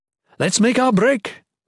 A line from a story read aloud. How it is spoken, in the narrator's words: Maywan yelled